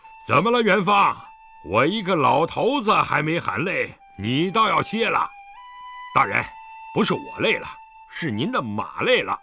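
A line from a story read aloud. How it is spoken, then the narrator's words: Loud answer. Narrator (Chinese): 狄仁杰也边催马快跑，边高声回答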